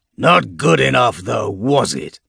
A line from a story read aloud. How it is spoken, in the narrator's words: He snarls